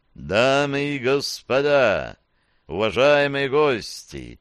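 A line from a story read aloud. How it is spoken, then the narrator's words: Booming voice from everywhere. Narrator (Russian): заговорил Дворецкий зычным голосом, звучащим отовсюду сразу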